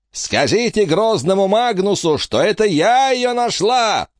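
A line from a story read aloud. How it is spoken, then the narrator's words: Shouting. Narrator (Russian): закричала графиня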